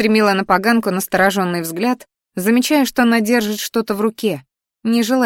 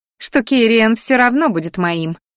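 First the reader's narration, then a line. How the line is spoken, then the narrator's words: Angry snuffling. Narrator (Russian): злобно сопела красноволосая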